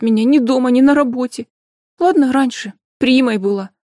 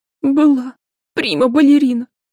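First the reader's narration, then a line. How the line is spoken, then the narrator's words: Sobbing. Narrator (Russian): девушка опять разрыдалась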